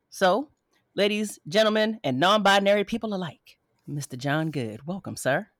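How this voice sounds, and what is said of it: Smooth, sultry late-night radio voice. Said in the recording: “you done put on your sexy voice ... The radio came on, your whole voice, and really turned into something ... the 10 p.m. quiet storm voice”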